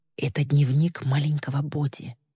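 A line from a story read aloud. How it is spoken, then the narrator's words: Whisper. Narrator (Russian): она шепотом произнесла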